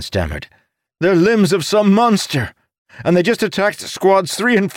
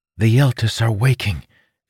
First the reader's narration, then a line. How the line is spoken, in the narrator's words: Felinia whispered